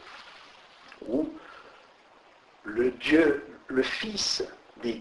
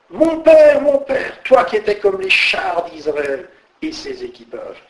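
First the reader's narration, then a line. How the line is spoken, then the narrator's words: Startled exclamation. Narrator (French): À cette vue, Élisée s'écria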